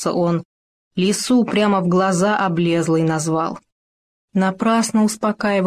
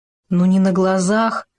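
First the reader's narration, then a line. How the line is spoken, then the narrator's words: Glum. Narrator (Russian): уныло произнес Хома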